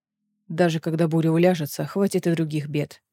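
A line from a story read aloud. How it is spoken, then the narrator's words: Grumbling. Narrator (Russian): проворчал Ларкан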